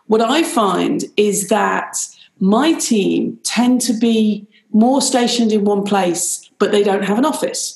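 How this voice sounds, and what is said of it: British accent. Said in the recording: “you can hear I have a British accent. I'm actually Irish.”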